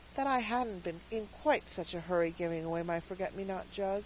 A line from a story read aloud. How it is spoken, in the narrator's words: added Cecily with a sigh